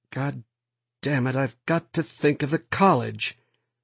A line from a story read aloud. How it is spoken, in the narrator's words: He mumbled